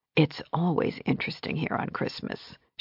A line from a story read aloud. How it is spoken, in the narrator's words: she whispered to her